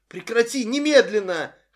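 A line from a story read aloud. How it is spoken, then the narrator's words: Terrified shout. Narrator (Russian): холодея от ужаса, закричала Нэнси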